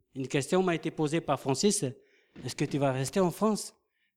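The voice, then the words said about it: Polynesian French accent. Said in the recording (French): “notre accent, moi en Polynésie”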